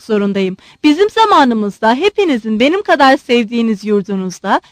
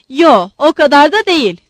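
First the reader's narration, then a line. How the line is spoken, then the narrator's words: Shouted. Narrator (Turkish): diye bağırdı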